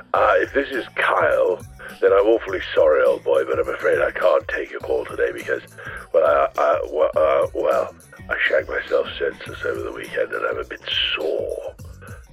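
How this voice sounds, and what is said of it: Hoarse voice. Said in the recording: “not to mention hoarse.”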